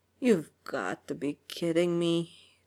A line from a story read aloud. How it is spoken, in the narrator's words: Tony muttered